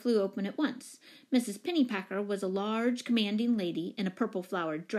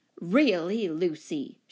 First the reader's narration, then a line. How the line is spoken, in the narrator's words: she exclaimed in a booming voice